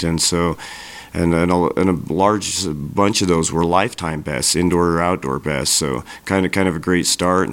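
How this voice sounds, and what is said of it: Sick, congested voice. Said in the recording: “as you can hear in my voice, all the crud going around”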